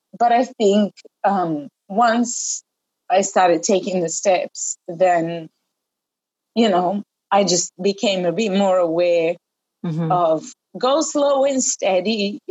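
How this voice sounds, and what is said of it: Emotional, choked-up voice. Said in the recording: “I'm starting to get a bit emotional.”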